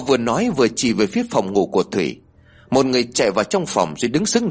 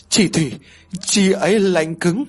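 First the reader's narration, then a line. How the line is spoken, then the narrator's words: Stammering. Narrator (Vietnamese): Cô lắp bắp nói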